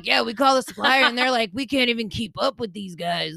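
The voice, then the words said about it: Imitates another person's voice. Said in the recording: “He did not actually talk like this. This is my imitation.”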